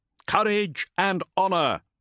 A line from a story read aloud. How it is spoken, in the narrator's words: his battle brothers bellowed in reply